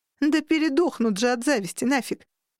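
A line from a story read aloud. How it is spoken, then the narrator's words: Giggling. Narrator (Russian): выдала хихикая подруга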